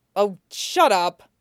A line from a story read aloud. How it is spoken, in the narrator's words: he snaps